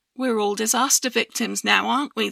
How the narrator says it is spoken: said

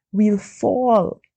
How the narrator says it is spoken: I moaned softly

